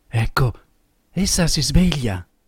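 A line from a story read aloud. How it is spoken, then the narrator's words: Low voice. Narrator (Italian): disse a bassa voce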